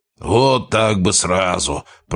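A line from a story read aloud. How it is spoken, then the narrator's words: Booming, unoffended big man. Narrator (Russian): прогудел оживший амбал, ничуть не оскорбленный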